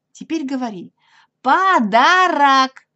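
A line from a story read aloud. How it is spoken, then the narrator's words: Very loud repetition. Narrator (Russian): повторил Пятачок очень громко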